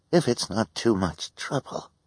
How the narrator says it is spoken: the woman said in a weak voice

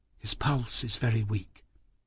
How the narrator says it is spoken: Miss Kenton say softly

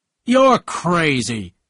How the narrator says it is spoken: cried Tom

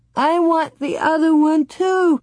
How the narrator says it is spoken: Laura sobbed loudly

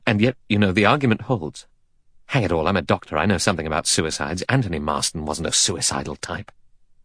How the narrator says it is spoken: Armstrong said gravely

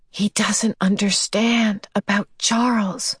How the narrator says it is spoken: she whispered to Calvin, looking unhappily

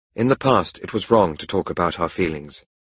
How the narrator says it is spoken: Helen replied

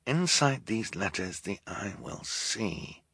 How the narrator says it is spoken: Klaus muttered to himself, as he often did when he was thinking hard

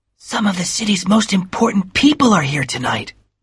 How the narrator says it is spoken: whispered Nick

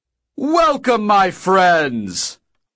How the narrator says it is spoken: Og bellowed

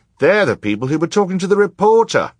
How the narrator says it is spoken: cried somebody else

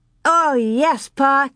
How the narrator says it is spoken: Carrie said eagerly

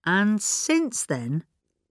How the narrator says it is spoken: Craddock said slowly

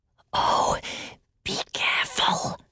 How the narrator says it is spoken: whispered Salmakia

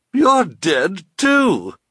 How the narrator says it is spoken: she cried

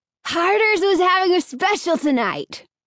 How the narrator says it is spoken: Alan declared loudly

